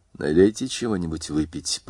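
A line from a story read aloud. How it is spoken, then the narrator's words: Slightly hoarse prompting. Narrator (Russian): подсказала она хрипловатым голосом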